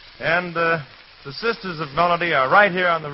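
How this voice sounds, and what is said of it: Usual voice. Nothing is said of it.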